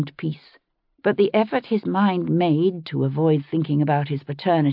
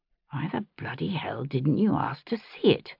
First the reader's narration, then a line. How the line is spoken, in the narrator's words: muttered to himself